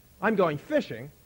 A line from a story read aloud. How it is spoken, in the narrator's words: the others said